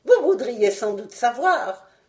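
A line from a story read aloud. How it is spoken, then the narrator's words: Sneering, snickering. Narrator (French): me dit-il en ricanant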